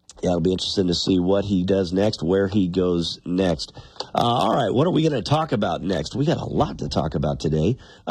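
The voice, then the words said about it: Raspy, slightly hoarse voice. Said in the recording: “You can tell my voice is still a little raspy here this morning ... You don't have to hear my raspy voice all morning long ... coughing”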